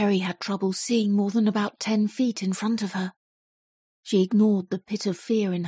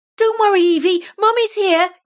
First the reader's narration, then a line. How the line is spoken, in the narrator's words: shouted back as she hurried down the stairs